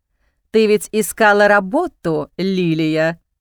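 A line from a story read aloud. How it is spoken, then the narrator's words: Mocking drawl. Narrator (Russian): тянет насмешливо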